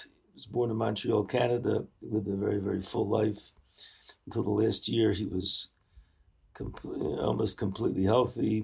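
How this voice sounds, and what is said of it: Hoarse voice. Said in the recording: “my voice is a little bit hoarse, more than a little bit hoarse.”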